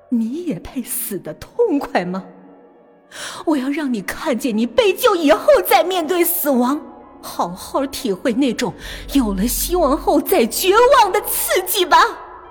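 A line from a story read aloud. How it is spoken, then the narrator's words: Soft mocking laugh. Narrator (Chinese): 肖丽轻笑出来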